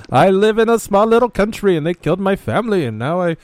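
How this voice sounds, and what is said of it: Put-on Russian accent, unconvincing. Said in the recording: “Was that not a good Russian accent? I thought it was just dead on. ... I thought you were from France.”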